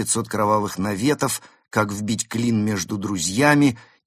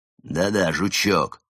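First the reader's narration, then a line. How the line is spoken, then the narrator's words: Irritated repetition. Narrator (Russian): раздраженно повторил Барс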